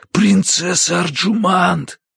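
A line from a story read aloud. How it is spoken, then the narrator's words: Desperate whisper. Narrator (Russian): Звал я отчаянным шепотом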